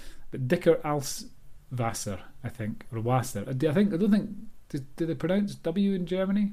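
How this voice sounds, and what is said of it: Usual voice. Nothing is said of it.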